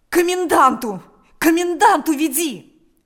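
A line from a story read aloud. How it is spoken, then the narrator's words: Desperate shout. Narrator (Russian): закричал Степан отчаянным голосом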